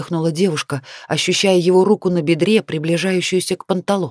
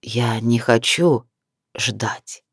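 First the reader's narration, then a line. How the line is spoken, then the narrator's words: Close hiss through teeth. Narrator (Russian): процедил в лицо, задевая губы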